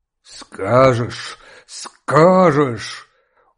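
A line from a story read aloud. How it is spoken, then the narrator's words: Choked, strained voice. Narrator (Russian): Он повторил это слово сдавленным голосом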